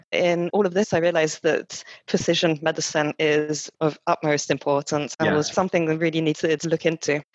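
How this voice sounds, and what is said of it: French accent with slight Scottish tinge. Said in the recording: “the little Scottish accent as well to accompany the French”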